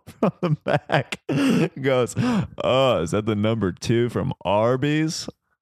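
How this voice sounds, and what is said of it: Imitates another person's voice. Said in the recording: “that's my Earl impression”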